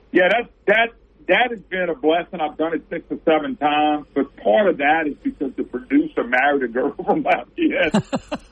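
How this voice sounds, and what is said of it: Strong regional accent, hard to understand. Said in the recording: “host the program with this accent ... I'm sure people are going, what did he say?”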